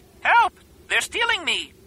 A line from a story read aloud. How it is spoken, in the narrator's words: screeched